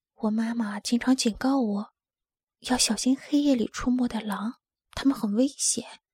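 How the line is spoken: Quiet low voice. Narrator (Chinese): 他小声说

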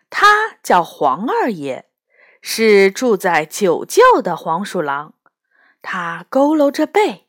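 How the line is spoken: Smiling old weasel. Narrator (Chinese): 老黄鼠狼笑眯眯地说

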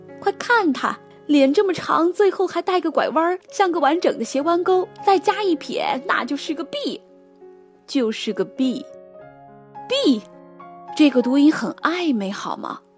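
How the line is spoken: Crowd shouting. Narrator (Chinese): 全场大喊

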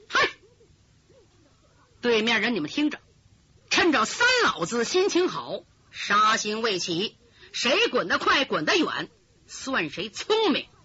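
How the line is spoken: Stern forceful shout. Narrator (Chinese): 他一提丹田气，厉声喝道

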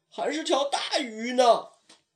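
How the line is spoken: Chubby kid, sudden shout. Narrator (Chinese): 小胖墩突然喊道

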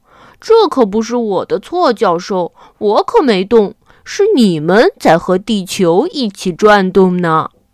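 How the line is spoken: Laughing reply. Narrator (Chinese): 太阳先生笑着回答

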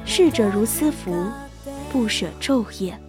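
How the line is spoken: Sighing. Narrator (Chinese): 孔子曾叹息曰

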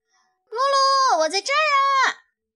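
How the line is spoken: Calling out. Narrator (Chinese): 咪咪对露露叫着

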